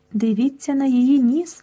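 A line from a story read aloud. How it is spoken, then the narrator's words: Plain. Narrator (Ukrainian): сказав Марк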